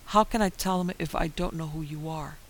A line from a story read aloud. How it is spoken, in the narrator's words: moaning and sobbing